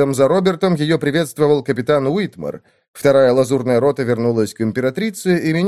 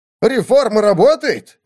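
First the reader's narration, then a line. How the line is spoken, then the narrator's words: Surprised, delighted exclamation. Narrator (Russian): воскликнул министр не то с удивлением, не то с восторгом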